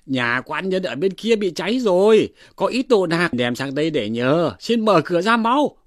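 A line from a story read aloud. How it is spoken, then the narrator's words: Calling out. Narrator (Vietnamese): Đoạn Hầu Kiện kêu lên rằng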